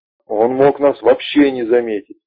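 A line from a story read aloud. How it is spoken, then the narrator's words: Yelling rook. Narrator (Russian): орал грач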